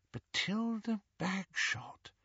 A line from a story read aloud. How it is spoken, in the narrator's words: murmured Hermione